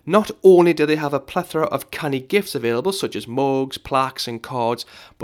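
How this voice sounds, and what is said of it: Geordie accent. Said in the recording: “my accent is a bit of a giveaway as to where I'm from ... a good Geordie accent”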